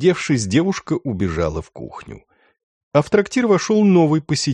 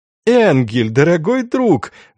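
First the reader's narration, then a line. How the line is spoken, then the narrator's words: Exclamation, young man. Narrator (Russian): воскликнул юноша в красном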